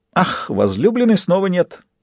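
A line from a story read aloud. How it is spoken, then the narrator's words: Giggling. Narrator (Russian): хихикнул Фист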